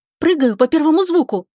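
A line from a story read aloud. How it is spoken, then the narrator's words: Excited warning. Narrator (Russian): взволнованно предупредила Лика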